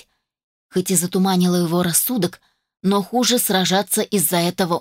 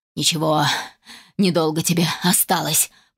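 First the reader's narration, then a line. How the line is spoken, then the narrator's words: Hissing threat. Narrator (Russian): прошипел Финис Монрой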